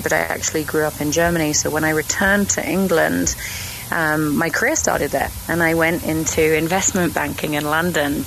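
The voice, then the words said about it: British accent. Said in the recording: “I know I've got a British accent”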